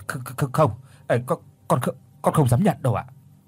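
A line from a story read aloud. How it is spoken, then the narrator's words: Stunned stammer. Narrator (Vietnamese): Quý há hốc mồm, mất một mấy giây sau thì mới lắp bắp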